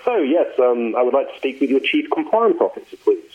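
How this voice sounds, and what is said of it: Posh London English accent. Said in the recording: “I went down to London ... other than poshing it up”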